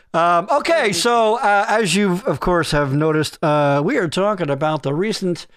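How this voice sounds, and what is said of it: Radio announcer voice. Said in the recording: “putting on my radio voice”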